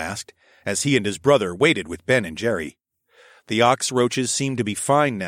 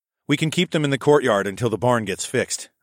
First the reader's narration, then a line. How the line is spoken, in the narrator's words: I said